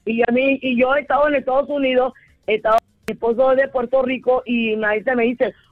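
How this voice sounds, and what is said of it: Panamanian Spanish accent. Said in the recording (Spanish): “100% panameña ... no se te ha pegado ese acento puertorriqueño? ... yo no voy a cambiar mi acento por nadie ... el panameño habla así”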